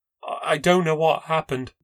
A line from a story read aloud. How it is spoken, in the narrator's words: she said sadly